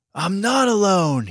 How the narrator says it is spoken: he yelled

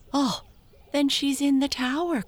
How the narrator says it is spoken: cried Amy

